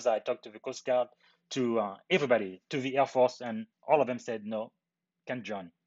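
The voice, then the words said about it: Strong foreign accent. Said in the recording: “You have a crazy accent, or I imagine you weren't born here.”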